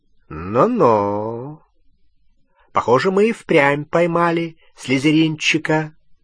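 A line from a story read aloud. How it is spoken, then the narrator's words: Drawling. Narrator (Russian): протянул Струпьер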